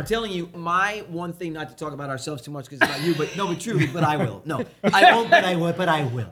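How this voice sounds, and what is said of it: Imitates another person's voice. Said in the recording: “That's my horrible impression of the former president.”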